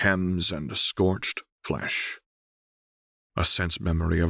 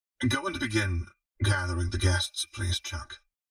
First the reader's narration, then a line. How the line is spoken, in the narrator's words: Renata said hoarsely